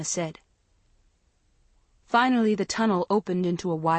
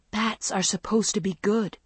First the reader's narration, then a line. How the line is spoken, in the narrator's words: Jade whispered